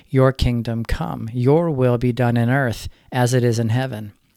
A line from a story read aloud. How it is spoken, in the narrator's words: said